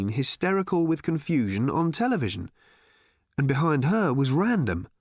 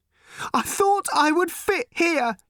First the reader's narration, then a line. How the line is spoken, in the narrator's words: she cried